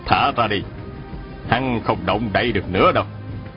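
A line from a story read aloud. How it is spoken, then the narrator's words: Smiling. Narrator (Vietnamese): Ngọc Chân Tử mỉm cười bảo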